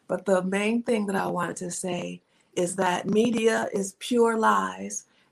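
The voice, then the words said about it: Slightly strained voice. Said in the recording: “my voice is a little strained”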